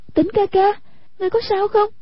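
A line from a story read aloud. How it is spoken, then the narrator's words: Frightened cry. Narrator (Vietnamese): Hoàng Dung vô cùng ngờ sợ, kêu lên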